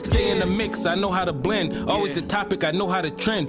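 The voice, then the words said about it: Baltimore accent. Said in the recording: “I knew he was from Baltimore. I heard that accent and I was like, oh, that's that Baltimore right there.”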